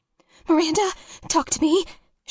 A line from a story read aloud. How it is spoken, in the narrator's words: said a little too frantically